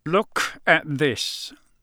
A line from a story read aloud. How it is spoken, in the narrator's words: growled